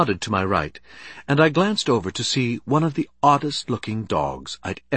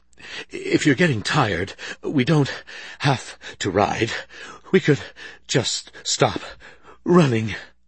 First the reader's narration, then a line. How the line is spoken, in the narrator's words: went on between wheezes